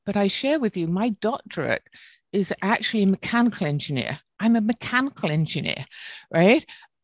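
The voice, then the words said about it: British accent. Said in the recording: “my British accent helps”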